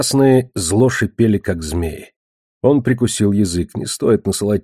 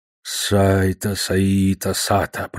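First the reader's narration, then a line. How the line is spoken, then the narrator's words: Muttered. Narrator (Russian): пробормотал он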